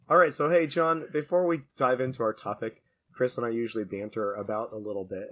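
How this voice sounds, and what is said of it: Sick, strained voice. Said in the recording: “yes, I have a cold. I don't know how long my voice will last here ... I like to think I sound more like Batman than Bane”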